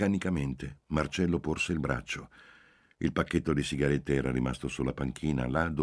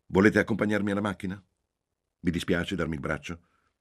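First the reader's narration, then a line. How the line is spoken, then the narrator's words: Old man's commanding tone, French. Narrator (Italian): Il vecchio afferrò il bastone e si alzò in piedi a fatica, dicendo a Marcello in tono di comando, questa volta in francese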